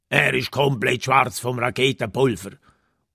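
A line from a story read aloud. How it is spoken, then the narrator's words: Satisfied grumble. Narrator (German): brummt der Klaue zufrieden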